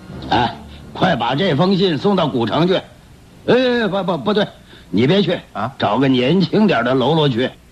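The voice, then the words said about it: Thick, rough, hoarse male voice. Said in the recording (Chinese): “以他粗厚嘶哑的声音说”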